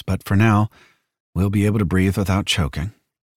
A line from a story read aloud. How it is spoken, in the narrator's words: Jackson said in a low voice